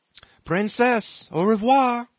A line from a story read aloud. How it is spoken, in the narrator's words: cried he, stumbling with his tongue as well as with his feet